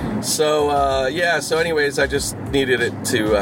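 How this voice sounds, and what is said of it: Usual voice. Nothing is said of it.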